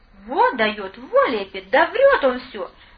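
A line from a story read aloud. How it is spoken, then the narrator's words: Delighted exclamation. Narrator (Russian): С непонятным восторгом воскликнул розовощекий капитан, начальник режимной части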